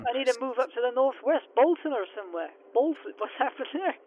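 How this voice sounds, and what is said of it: Put-on Bolton northern English accent. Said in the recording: “Where have you gone? Bolton or somewhere? ... I just take on the accent.”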